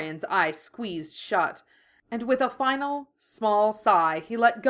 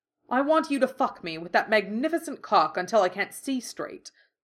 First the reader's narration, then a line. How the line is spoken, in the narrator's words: Dorian snarled